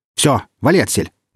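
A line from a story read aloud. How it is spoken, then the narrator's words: Barking shout. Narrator (Russian): гаркнул наемник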